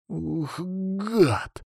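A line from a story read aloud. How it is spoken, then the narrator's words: Startled exclamation. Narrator (Russian): воскликнул Петя, когда ему на глаза попался замерший Фадеев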